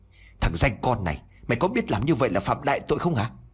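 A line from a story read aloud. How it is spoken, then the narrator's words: Sharp shout. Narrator (Vietnamese): Ông liền quát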